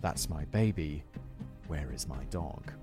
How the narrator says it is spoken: Playing up a fake emotional distress, whispering

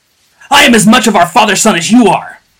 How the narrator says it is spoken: bellowed Joja between blows

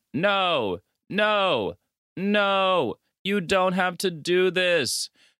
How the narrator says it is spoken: a tied-up man that's screaming

